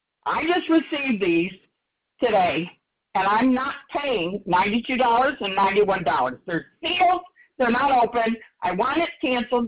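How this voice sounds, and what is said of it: Yelling, angry raised voice. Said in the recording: “I'm yelling,”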